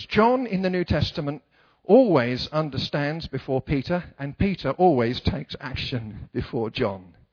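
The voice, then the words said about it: English accent. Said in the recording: “My accent is fresh. ... See, in England, what we do is mumble.”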